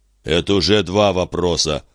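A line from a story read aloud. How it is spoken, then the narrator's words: Grumbling hapless chicken owner. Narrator (Russian): проворчал незадачливый хозяин кур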